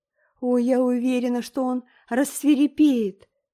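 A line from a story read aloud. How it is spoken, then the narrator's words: Moaning. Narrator (Russian): застонала Энн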